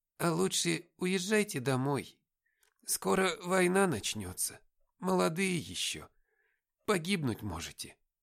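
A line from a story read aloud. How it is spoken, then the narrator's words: Old woman, heavy sigh. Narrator (Russian): Бабушка Маша снова тяжело вздохнула и сказала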